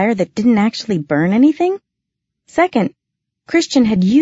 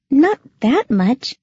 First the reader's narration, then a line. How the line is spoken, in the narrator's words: she said uneasily